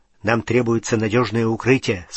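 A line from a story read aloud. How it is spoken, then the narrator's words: Plain. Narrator (Russian): сказал Рон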